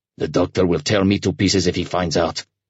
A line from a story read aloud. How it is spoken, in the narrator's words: the orderly snarled